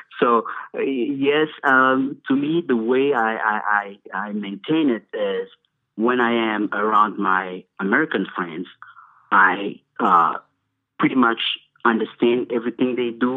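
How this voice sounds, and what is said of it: Heavy non-native English accent. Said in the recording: “you can tell from my heavy English accent”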